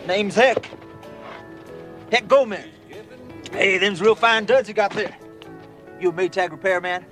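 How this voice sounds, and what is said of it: Cowboy accent. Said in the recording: “he's Cowboy Hector ... With a cowboy accent”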